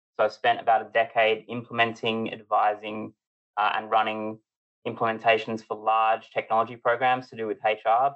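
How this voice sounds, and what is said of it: Australian accent. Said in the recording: “As you can hear by the interesting accent, I come from the colonies. I'm from Australia”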